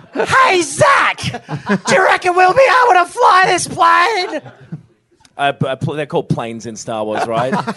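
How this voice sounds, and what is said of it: Imitates another person's voice. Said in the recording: “That was my Mark impression. ... That was brilliant.”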